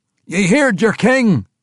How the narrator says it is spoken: Dondigo cried

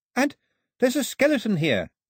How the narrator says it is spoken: Daphne called out

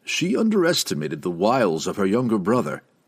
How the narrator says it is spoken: gave a sly chuckle

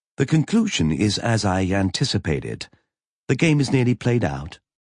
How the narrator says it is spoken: Roberta said evenly

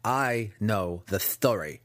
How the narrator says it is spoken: Massage growled

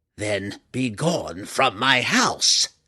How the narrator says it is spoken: the matron mother snarled

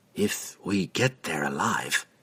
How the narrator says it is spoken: under his breath, but still loud enough for the sailor to hear, he said

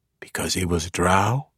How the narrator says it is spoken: Jarlaxle whispered

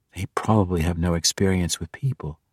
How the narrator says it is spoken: Catty Bree whispered back

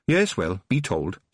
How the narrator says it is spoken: said Mrs

